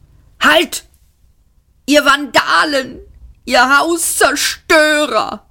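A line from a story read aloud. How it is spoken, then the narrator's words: Roaring. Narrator (German): brüllte Arthur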